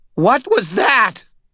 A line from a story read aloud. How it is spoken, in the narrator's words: Butters screamed